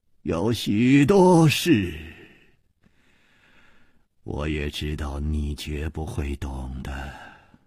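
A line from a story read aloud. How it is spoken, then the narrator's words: Calm sigh. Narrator (Chinese): 李玉涵也不生气，竟又叹息了一声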